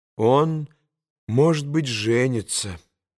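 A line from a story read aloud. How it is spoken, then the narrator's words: Said sadly. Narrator (Russian): грустно проговорил Алеша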